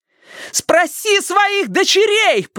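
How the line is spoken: Shouting amid a struggle. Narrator (Russian): прокричала Робин среди летающих туда-сюда кулаков и локтей, стараясь высвободиться

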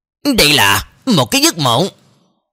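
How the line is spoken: Pleased smiling speech. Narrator (Vietnamese): Cơ Trường Phu trong mắt thoáng có vẻ vui mừng, mỉm cười nói

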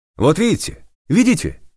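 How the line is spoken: Worked-up yelling. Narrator (Russian): завопил разошедшийся Сема

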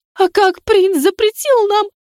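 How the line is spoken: Gasping, sobbing. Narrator (Russian): захлебнулась она воздухом и всхлипнула

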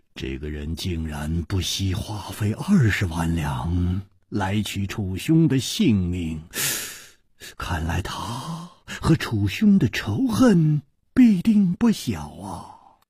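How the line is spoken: Sighing. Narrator (Chinese): 李玉涵叹道

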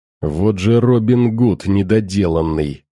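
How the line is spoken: Angry pained hiss. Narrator (Russian): зло зашипел Тостер, когда довольно-таки крупный обломок бетона ударил его в плечо

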